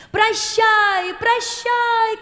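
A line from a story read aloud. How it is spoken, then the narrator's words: Prince and princess shouting. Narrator (Russian): кричали принц и принцесса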